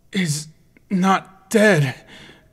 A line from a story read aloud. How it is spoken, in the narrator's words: Link moaned, struggling to speak as the blood flowed sickeningly through his mouth